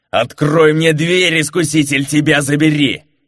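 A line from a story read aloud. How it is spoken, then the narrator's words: Yelled. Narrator (Russian): заорал де Турсека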